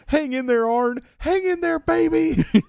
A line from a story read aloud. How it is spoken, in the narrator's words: yells more shit in his face